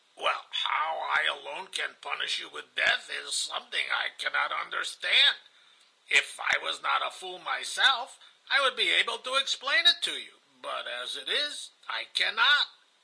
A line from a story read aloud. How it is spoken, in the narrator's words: Ivan began to laugh heartily on hearing this, and said